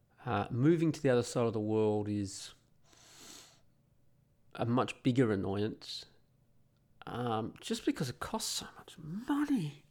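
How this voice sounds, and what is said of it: Australian accent. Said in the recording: “I've got an Aussie accent”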